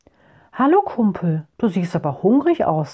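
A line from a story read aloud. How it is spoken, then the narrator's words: Plain. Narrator (German): sagte der Mann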